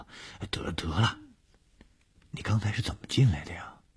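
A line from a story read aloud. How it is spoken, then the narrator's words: Soft voice. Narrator (Chinese): 小梅 小声地说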